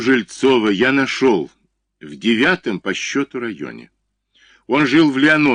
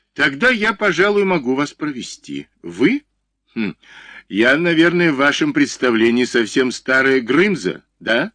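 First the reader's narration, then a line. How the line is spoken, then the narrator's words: Laughing. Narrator (Russian): засмеялась Воропаева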